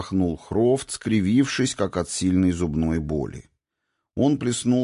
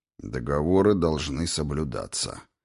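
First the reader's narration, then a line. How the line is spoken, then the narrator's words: Grumbling ancient god. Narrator (Russian): проворчал древний бог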